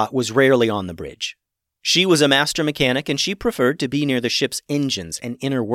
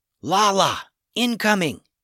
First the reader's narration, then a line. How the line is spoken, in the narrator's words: Captain Max whispered into her communication device